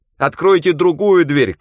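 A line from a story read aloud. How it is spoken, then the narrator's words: Shout. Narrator (Russian): крикнул я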